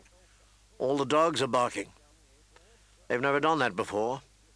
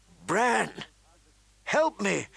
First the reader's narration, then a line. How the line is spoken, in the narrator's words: she said urgently